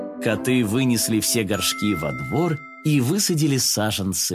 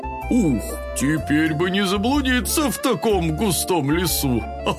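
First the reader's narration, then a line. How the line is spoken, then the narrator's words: Laughing. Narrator (Russian): Смеялся папа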